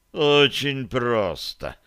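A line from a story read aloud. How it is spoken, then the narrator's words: Moaning. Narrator (Russian): простонал Бозл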